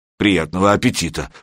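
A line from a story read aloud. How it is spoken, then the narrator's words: Grumbling mutter. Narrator (Russian): пробурчал Серега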